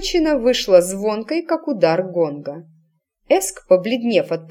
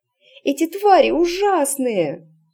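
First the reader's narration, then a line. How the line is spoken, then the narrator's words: Sobbing. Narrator (Russian): всхлипывала Эск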